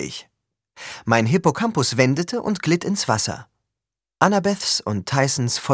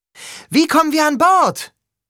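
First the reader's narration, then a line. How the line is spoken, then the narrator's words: Shouting over waves. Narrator (German): schrie Annabeth durch das Rauschen der Wellen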